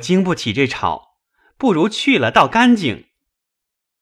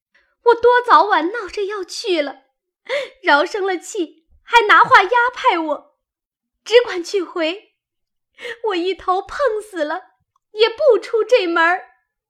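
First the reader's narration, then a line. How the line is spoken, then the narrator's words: Crying. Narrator (Chinese): 晴雯哭道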